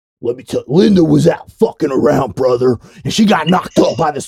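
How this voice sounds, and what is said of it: Angry imitation of another person's voice. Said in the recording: “an impersonation of Hollywood Hulk Hogan ... while they're really pissed off”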